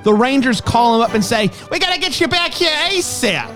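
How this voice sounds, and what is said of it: Put-on New York accent. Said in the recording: “That's my New York accent.”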